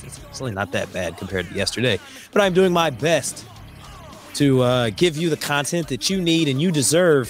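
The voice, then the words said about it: Strained voice, losing his voice. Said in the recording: “if I sound a little bit different this week, it's because I am losing my voice”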